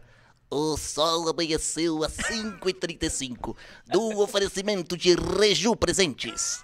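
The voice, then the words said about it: Imitates another person's voice. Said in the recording (Portuguese): “imitação que eu fiz na vida ... Então imita ... Mas não com essa voz, ele fala assim”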